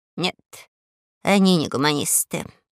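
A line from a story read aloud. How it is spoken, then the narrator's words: Grumbling. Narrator (Russian): ворчал Веня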